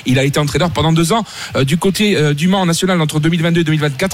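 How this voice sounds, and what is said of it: Singsong Corsican French accent. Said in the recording (French): “l'accent chantant ... de la Corse”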